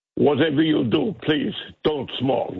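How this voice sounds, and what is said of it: Imitates another person's voice. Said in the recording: “you do the voice ... It's a very good impersonation.”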